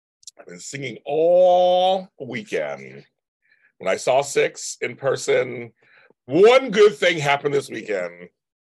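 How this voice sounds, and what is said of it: Raspy, strained voice. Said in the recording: “with a raspy voice already because I've been singing all weekend”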